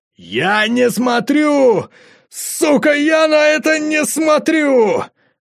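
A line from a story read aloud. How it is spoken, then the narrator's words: Shouting. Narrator (Russian): Андрюха закричал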